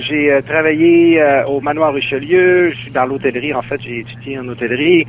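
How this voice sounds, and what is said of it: Lac-Saint-Jean Quebec French accent. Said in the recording (French): “je reprends l'accent du Lac-Saint-Jean”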